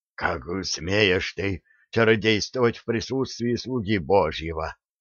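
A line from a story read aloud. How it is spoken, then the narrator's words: Hoarse exclamation. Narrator (Russian): хрипло воскликнул священник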